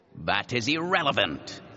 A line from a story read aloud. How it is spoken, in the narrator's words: he said irritably